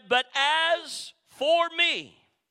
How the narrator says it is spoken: would somebody shout

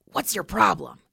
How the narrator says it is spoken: He hissed

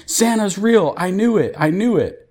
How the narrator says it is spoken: Emma is absolutely losing her shit, yelling

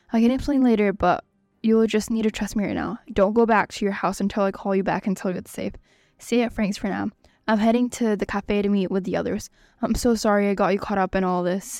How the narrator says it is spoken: Ava says

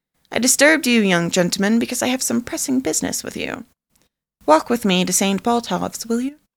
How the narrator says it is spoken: he said kindly

